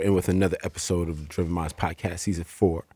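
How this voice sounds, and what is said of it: Very deep, low, smooth voice. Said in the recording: “y'all sound too cool right now, man. Y'all got the Barry White voices on”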